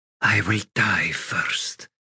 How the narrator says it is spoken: she whispered

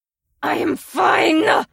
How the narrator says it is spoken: Lazan growled

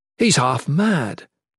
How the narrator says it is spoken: Jen exclaimed

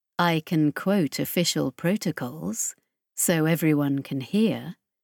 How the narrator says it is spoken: Chris said calmly, quietly

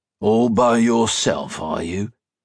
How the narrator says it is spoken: Fur growled suspiciously

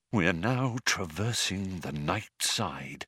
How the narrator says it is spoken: he said in a hushed voice

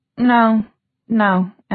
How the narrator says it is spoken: Emma said, and now her voice was shaking

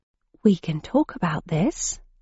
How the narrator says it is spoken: I said, in a quiet tone

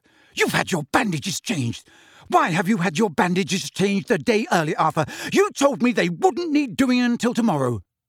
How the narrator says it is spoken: she said, with a snap in her voice like a mousetrap

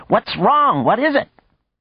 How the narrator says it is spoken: his voice in Nergal's ear crying

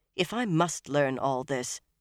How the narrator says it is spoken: Nynaeve broke in stiffly

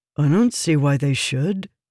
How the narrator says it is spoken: he said

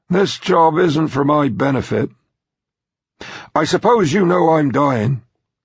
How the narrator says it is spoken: Gazing mournfully, the billionaire said

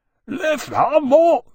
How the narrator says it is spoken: the dragon cried

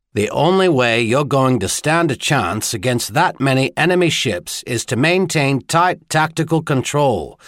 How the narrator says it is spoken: Caleb argued, his voice flat

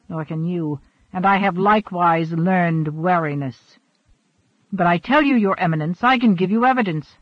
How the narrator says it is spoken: Richelieu snapped

